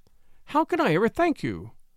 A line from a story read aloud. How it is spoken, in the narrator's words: cried she impulsively